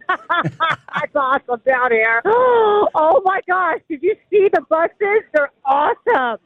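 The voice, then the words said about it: Screaming over a crowd. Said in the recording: “I'm screaming, because everybody else is screaming.”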